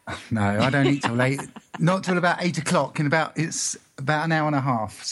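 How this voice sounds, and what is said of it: English accent. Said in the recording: “You're in England? ... I am. Did you tell by my accent? yeah, absolutely.”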